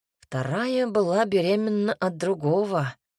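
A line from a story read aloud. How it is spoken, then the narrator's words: Sighed. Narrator (Russian): вздохнул Кирьян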